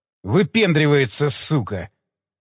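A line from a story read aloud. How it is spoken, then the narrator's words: Muttered. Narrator (Russian): пробормотал Цымбаларь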